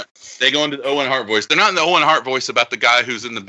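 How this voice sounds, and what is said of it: Usual voice. Nothing is said of it.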